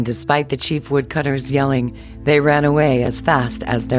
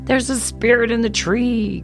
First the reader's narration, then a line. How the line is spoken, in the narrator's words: cried, thoroughly frightened